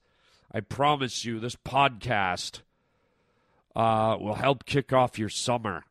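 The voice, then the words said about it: Gravelly voice from a cold. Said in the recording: “I have a bit of a cold happening, a bit of a bad throat... my gravelly, sexy voice”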